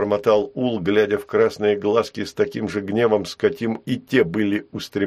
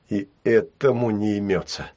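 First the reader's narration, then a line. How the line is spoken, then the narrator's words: Annoyed whisper. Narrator (Russian): с досадой прошептал Ул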